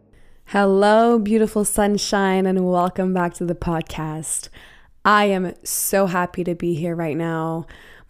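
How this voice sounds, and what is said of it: Slightly raspy voice. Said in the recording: “My voice sounds a little different ... my body and my throat and my lungs are definitely not used to this weather. So I sound like a little raspy”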